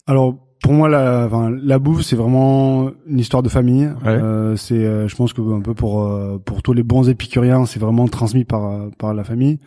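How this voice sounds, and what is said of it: Slight southwestern French accent. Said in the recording (French): “Il y a un petit accent. ... Ça s'entend légèrement. ... Dans le Béarn, à côté de Pau.”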